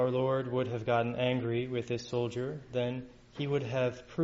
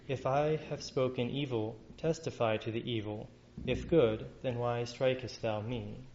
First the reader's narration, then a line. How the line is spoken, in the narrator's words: our Lord calmly answers